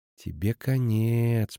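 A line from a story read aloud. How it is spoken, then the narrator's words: Whisper. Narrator (Russian): прошептала Эштике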